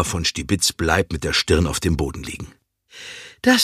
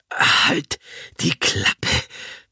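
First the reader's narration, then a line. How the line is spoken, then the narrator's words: Gasping old woman. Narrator (German): keucht Oma von Stibitz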